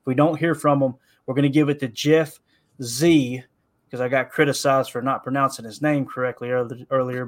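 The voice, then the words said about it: Noticeable accent. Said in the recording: “You hear the accent, you shouldn't expect me to pronounce anything correctly”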